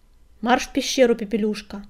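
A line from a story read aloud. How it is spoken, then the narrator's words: Barking. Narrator (Russian): рявкнул он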